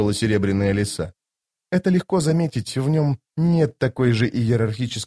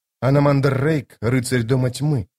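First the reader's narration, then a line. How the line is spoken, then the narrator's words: Plain. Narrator (Russian): сказала она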